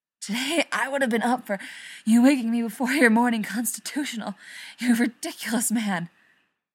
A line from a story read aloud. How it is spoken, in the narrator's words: Rodney gasps